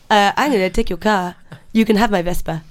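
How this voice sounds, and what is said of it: Put-on Italian accent. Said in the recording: “You've got to do an Italian accent.”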